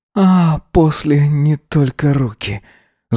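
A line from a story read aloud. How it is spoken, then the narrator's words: Moaning. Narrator (Russian): застонал он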